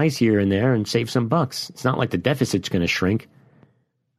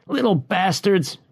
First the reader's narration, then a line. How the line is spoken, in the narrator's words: he yelled